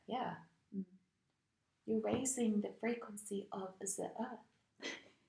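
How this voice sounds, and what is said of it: Put-on German or South African accent. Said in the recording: “I don't know why I have the German accent. I don't even know what accent this is. ... I feel like I'm South African”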